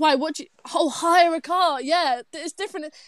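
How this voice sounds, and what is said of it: Usual voice. Nothing is said of it.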